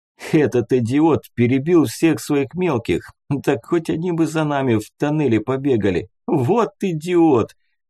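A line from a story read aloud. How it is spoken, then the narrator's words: Laughing, slightly drunk. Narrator (Russian): смеялся, держа подрагивающей рукой стопарь с водкой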